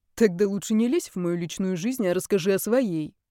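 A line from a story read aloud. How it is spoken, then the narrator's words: Snort. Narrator (Russian): хмыкнул Дан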